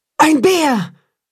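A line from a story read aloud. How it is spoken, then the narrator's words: Startled mother wolf's cry. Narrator (German): ruft die Wolfsmutter erschrocken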